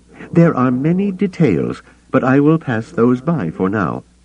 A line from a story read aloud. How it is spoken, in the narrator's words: he added hastily